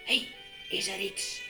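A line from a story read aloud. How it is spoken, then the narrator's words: Whisper. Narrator (Dutch): fluisterde Shasta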